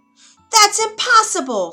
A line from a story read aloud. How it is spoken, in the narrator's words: screamed the queen